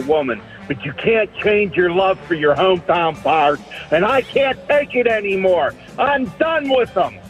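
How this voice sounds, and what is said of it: Strong regional accent. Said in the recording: “What an accent! ... What an accent!”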